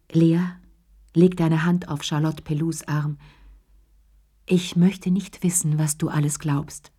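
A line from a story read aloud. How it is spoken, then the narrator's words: Gentle. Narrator (German): sagte sie sanft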